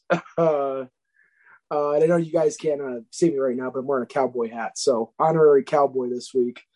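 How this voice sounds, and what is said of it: Strained, worn-out voice. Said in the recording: “Obviously, as you can tell, my voice is not as good as it usually is.”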